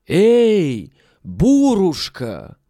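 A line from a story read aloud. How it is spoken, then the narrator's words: Loud shout. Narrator (Russian): крикни громким голосом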